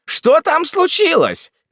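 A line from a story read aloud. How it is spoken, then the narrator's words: Shout. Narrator (Russian): крикнул он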